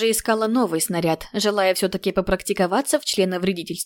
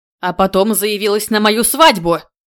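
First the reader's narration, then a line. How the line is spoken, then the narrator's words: Growling. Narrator (Russian): И снова это рычание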